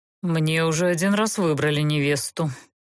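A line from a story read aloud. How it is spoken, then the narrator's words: Pale, through gritted teeth. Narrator (Russian): бледнее процедил Геверт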